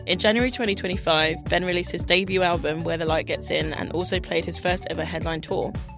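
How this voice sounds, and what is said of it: Husky, congested, phlegmy voice. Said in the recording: “I'm grotty because I have a cold... hopefully people will interpret it as sexy phlegm instead of, you know,... sound disgusting... husky... It's radio vocal fry.”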